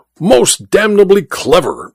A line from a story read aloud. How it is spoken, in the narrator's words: exclaimed the Duke